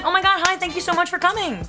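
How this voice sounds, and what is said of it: Bright, overly polite customer-service voice. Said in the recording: “customer service voice”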